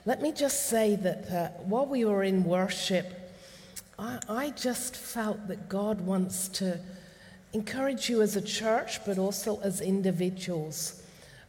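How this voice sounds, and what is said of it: Mixed accent, voice heavy with a cold. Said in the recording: “this unusual accent comes from, that's just a bit heavy today with the cold, but you'll understand what a mixture's on board with my accent.”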